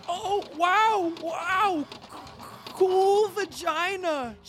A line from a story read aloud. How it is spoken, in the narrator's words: shouted Tails, losing his cool way because he was nervous and excited